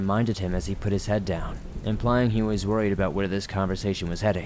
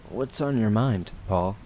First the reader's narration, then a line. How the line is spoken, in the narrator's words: he asked in a concerning tone